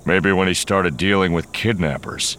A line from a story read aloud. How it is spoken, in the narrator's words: Han growled